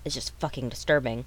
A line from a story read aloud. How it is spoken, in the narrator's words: he muttered